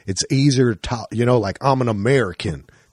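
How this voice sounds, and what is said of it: Put-on Southern Texas drawl. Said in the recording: “a Southern or like a Texas drawl, like talk like this a little bit”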